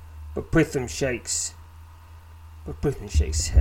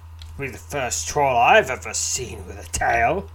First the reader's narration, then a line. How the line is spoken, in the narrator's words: he scoffs